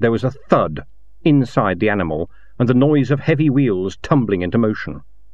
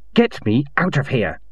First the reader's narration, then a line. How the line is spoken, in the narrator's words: she hissed